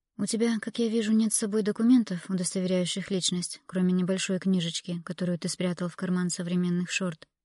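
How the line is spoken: Calm tone. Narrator (Russian): спокойно проговорила Эмилия

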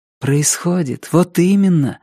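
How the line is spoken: Joyful inner voice. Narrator (Russian): радостно отозвалось в душе

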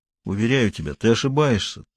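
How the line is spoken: Dull voice. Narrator (Russian): тусклым голосом сказал Тренев

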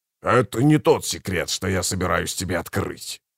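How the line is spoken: Growl. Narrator (Russian): прорычал кафал

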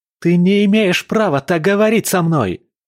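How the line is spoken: Shout. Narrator (Russian): закричал он

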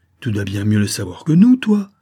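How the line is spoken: Exclaimed. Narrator (French): s'écria Mathurin

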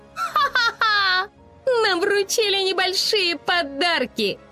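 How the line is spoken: Laughing. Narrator (Russian): рассмеялась она

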